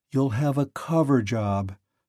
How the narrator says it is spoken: she explained wearily

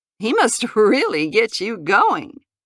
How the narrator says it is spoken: added a laugh and said

